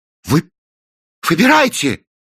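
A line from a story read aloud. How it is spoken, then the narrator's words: Exclamation. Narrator (Russian): воскликнул Кранк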